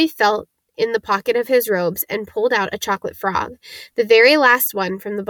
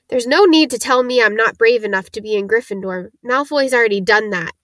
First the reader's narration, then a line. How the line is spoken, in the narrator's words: Neville choked out